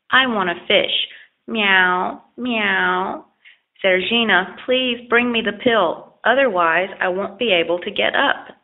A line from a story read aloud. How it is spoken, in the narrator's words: sadly repeated the old man